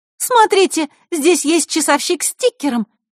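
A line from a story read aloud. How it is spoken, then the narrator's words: Exclaiming. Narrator (Russian): воскликнула Захарра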